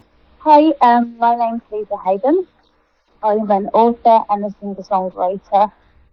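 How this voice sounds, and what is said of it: British English accent. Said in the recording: “fun British accent ... I'm from Birmingham in the UK, hence the English accent”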